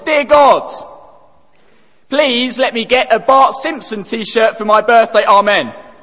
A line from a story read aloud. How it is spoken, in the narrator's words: He was only 7 years old, and he took a deep breath and he bellowed at the top of his voice